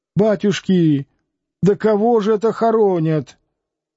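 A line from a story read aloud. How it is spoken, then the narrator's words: Loud astonished question. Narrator (Russian): Изумленно она громко спросила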